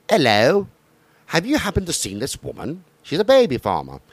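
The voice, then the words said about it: Poor attempt at English accent. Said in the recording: “I can't do an English accent. ... That's one of the few I have seen you not be able to do.”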